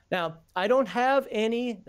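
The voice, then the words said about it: Imitates another person's voice. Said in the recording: “That was my imitation of Heathen Dog with the now.”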